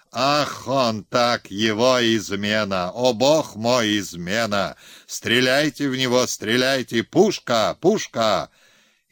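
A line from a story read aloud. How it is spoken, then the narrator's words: Sudden frantic yell. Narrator (Russian): Билов вдруг заорал не своим голосом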